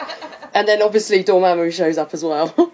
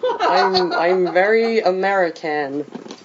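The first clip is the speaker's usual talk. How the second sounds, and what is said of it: Put-on American accent. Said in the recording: “That's my American accent. I'm British and can do an American accent”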